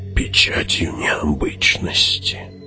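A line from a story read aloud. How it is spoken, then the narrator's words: Soundless whisper, old woman. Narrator (Russian): беззвучно прошептала старуха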